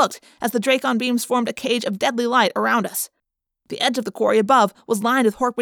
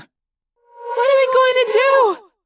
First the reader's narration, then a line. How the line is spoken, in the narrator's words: Cassie wailed